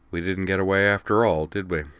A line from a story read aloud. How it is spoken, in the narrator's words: he sighed